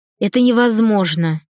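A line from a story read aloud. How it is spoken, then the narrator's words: Scornful snort. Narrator (Russian): фыркнула генеральша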